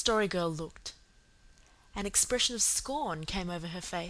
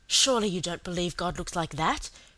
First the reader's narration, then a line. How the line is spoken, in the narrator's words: she said impatiently